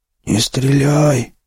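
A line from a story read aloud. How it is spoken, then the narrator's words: Hoarse rasp. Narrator (Russian): прохрипел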